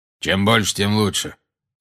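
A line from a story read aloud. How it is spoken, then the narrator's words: Gloomy. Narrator (Russian): мрачно проговорил Грюм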